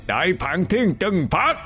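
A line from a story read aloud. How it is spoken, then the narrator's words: Shout. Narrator (Vietnamese): Hỗn điện hét lên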